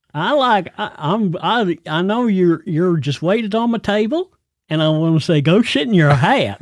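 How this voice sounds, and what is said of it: Caricatured American tourist accent. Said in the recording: “I don't think anybody from the U.S. actually talks like I just spoke ... It's called a caricature ... you do caricature accents”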